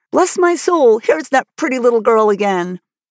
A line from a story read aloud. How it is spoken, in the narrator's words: excitedly exclaiming